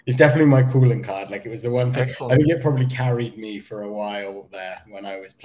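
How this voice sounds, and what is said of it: English accent. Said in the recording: “you know the the, the accent, ... You are English.”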